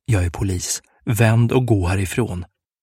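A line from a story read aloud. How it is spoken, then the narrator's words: Whispered. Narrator (Swedish): viskade han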